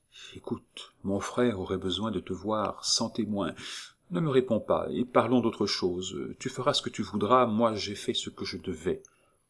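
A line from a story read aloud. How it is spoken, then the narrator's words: Murmuring close to ear. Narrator (French): Rose mit ses lèvres tout contre l'oreille de Nita et murmura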